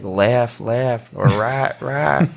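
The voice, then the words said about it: Mild Southern US accent. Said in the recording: “I had a little southern accent going in”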